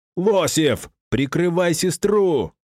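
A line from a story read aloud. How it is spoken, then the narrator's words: Roared. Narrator (Russian): взревел я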